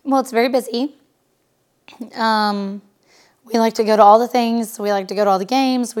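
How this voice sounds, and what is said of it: Hoarse voice from laryngitis. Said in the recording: “you're battling a little bit of laryngitis right now”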